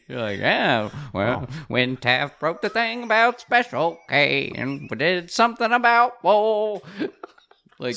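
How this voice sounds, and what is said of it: Impression of an early-1900s songwriter. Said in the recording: “really good impersonation of a songwriter in 1911 being forced to write a political tune”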